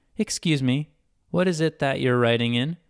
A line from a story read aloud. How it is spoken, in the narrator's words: asked Ren